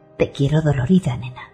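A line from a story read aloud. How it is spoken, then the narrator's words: Murmured. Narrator (Spanish): murmura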